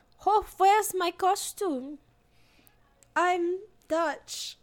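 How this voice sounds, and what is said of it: Put-on Dutch accent. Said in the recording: “That's my Dutch accent. ... Oh, that was so good. Yeah, you knocked it out of the park.”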